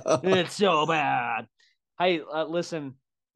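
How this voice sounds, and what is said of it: Usual voice. Nothing is said of it.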